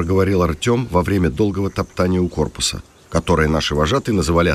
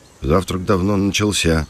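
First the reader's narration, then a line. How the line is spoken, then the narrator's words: Muttering grumble. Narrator (Russian): пробурчал Кирилл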